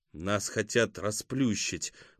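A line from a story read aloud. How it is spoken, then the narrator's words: Muttered through clenched teeth. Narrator (Russian): процедил Кузьма сквозь зубы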